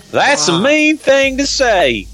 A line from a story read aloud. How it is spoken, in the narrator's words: Harry screamed bravely